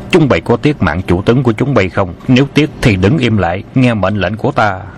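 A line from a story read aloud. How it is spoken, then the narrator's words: Loud commanding shout. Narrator (Vietnamese): Khâu Sứ Cơ quát lớn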